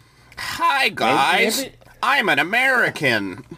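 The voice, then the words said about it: Nerdy exaggerated Midwest American accent. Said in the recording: “like a weird ... this weird like nerdy ... Midwest accent, kind of? ... the British version of an American accent”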